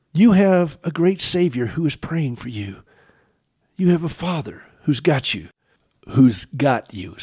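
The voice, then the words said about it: Southern American accent. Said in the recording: “that's my southern accent that comes through”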